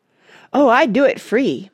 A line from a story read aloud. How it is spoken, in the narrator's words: Mona said